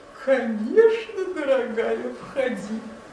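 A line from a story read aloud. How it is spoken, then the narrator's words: Old wolf giggling. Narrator (Russian): хихикнул старый волк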